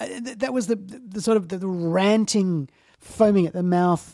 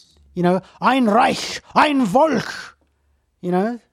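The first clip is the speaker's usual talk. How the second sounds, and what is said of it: Put-on German accent. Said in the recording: “that's a great German accent you got there.”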